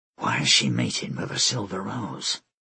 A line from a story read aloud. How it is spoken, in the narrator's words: Mikhail whispered